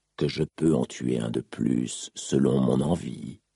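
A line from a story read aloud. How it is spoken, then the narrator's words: Growled. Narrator (French): gronda l'assassin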